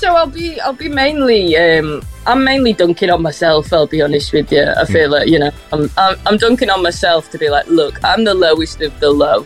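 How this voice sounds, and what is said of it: Softened northwest English Scouse twang. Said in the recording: “a sort of northwest accent, a twang in there ... a little bit of a twang, but it's very much softened ... Scouse accent”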